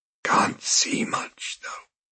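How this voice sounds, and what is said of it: Hoarse whisper. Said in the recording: “came in a hoarse whisper.”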